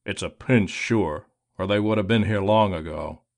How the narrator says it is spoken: he grumbled

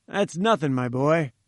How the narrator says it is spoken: said he

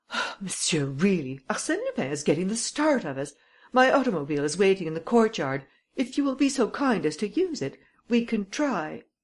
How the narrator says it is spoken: I exclaimed

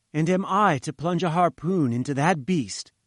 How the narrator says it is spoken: I cried

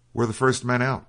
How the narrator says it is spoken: cried the officer

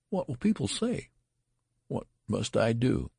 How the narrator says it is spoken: he murmured in an ecstasy of horror

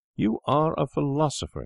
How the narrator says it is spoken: he cried

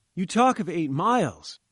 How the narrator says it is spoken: I cried

